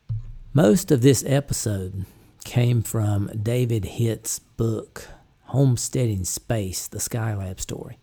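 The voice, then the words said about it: Southern American accent. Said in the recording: “It's hard working out a southern accent, you know. ... I'm just not that good at getting the southern out of it.”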